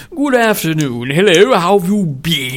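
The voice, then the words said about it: Put-on English accent. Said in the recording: “your crappy English accent ... I think my English accent is perfect”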